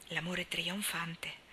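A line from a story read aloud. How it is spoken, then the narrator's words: Low voice. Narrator (Italian): disse Leslie a bassa voce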